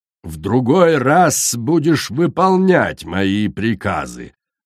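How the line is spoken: Growling. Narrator (Russian): зарычала Корал

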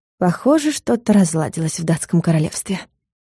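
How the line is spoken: Muttering under breath. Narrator (Russian): пробормотала Юля себе под нос

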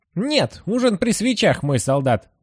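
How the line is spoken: Snapped. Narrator (Russian): огрызнулся Табаки

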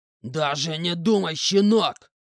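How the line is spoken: Growling man. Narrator (Russian): прорычал мужик

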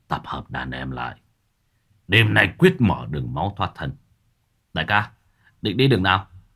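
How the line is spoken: Hoarse, weak voice. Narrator (Vietnamese): Hắn đáp bằng giọng khều khào

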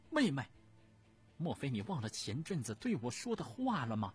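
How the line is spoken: Very angry. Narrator (Chinese): 慈安太后不由得非常愤怒

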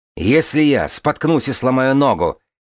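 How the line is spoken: Barked. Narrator (Russian): рявкнул Аразгон

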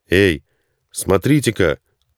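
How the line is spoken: Sudden shout. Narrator (Russian): крикнул вдруг кто-то из людей

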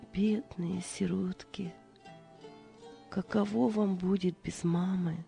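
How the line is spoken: Maid's whisper. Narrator (Russian): Служанка прошептала

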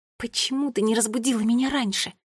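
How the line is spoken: Hiss. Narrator (Russian): прошипела я маме

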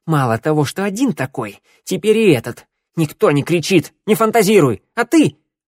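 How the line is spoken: Sharp bark. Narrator (Russian): рявкнула мужу

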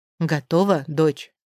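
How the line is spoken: Father asking quietly, unhurried. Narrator (Russian): не подгоняет, а лишь тихо уточняет отец

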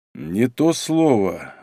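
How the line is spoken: Thoughtful drawl. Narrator (Russian): задумчиво протянул Малинин

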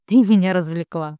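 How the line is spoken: Laughing. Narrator (Russian): смеясь, говорит

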